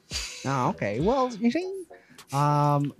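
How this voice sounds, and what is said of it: Vaudeville-style 1920s movie accent. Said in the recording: “You gotta do it in a vaudeville accent... Like 1920s, 30s movie.”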